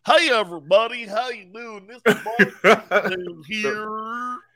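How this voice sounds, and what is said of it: Fake Cajun accent. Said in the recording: “Where did you get that Cajun accent from? ... That was so fake, man.”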